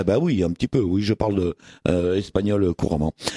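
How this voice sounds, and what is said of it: Usual voice. Nothing is said of it.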